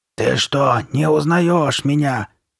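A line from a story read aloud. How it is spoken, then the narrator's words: Hoarse rasp. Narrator (Russian): прохрипела Карли Бет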